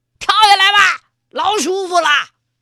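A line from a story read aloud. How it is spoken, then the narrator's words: Calling upward loudly. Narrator (Chinese): 朝悬崖上面喊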